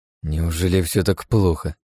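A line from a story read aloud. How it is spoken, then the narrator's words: Grumbling. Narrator (Russian): буркнул я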